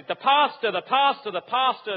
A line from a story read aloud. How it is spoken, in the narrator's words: The crowd shouted